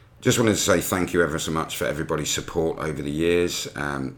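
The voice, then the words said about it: British English accent. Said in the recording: “that limey accent”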